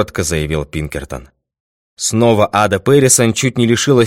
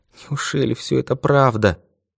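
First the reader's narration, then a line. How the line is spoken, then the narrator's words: Muttering. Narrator (Russian): бормотала она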